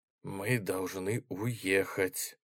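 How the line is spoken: Hoarse. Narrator (Russian): хрипло повторил Дэн

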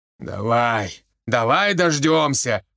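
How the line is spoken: Growling. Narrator (Russian): рычал Никитич

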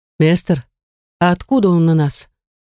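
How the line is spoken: Timid question. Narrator (Russian): Робко поинтересовался кто-то из одногруппников

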